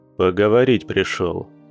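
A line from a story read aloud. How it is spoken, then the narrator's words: Grim, through clenched teeth. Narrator (Russian): мрачно процедил охотник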